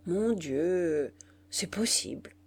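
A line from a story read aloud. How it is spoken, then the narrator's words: Murmured obligingly. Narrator (French): murmura l'auteur par complaisance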